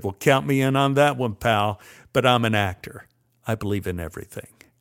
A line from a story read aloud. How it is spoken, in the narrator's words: Dietrich laughed and said